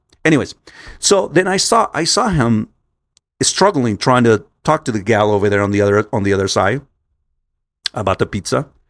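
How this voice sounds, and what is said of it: Hispanic Spanish-speaker's English accent. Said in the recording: “as a Hispanic person as I am, we all have different accents. Okay, I have my accent”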